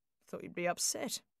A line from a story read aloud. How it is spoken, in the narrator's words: muttered